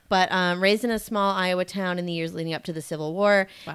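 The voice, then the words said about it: Put-on Southern accent. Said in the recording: “I've already been practicing parts of this in a Southern accent, so we're just going to have to go with that”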